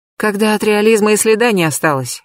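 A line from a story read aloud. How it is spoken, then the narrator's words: Sighing. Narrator (Russian): Анфиса вздохнула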